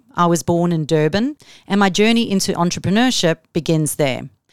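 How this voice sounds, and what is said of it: South African accent. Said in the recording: “As you can hear from my accent, I'm from South Africa.”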